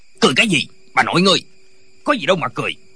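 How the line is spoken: Shout. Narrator (Vietnamese): Viên quan lại quát lên

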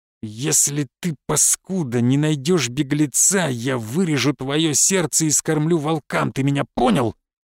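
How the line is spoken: Menacing hiss. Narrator (Russian): прошипел граф

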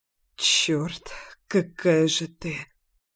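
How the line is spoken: Muttered. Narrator (Russian): пробормотал Леша

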